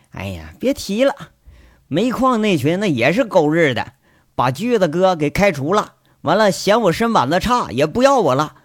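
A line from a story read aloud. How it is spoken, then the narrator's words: Sighing. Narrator (Chinese): 狗剩家这小子叹了口气，说了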